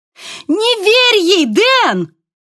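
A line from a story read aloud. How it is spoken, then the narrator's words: Shouting. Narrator (Russian): закричала София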